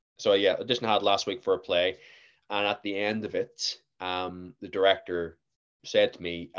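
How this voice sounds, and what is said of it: Generic Northern Irish accent, hybrid. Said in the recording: “I am Northern Irish. I don't really have a Belfast accent. I have a generic Northern Irish accent. Some people actually think I'm American at times. Some people think I'm English. I've gotten Australian before. ... my accent's a bit of a hybrid.”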